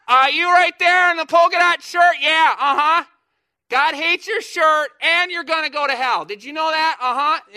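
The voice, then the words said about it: Yelling, screaming street preacher voice. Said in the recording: “you're yelling, you're screaming.”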